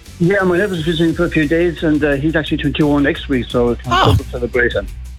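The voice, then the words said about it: Strong Irish Clare accent. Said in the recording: “the Clare accent is strong in you too”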